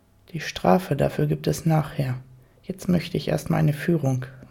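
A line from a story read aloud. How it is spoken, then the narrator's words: Quiet and firm. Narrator (German): sagte er leise und bestimmt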